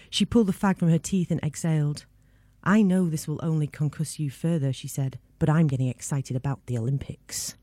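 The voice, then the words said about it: Mancunian English accent. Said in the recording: “I was very swept away by your Mancunian accent ... Hearing it actually read in that accent was wonderful.”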